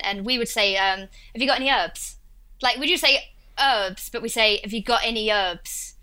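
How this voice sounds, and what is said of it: Essex accent, dropped H's. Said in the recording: “in my accent, I'm from a place called Essex... that's what my accent is, like Russell Brand. And it's that accent... We leave out H's with my accent”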